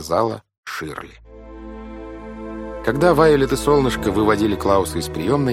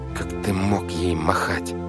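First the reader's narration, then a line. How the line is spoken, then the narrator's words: Through gritted teeth. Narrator (Russian): сквозь зубы сказала брату Вайолет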